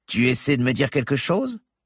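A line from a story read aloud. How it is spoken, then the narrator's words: Cynical tone. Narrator (French): fit Vance d'un ton cynique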